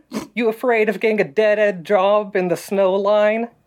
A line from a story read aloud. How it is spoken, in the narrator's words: Orion chuckled a bit